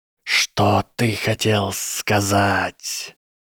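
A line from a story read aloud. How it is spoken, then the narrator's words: Hissed reply. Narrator (Russian): Гарри прошипел в ответ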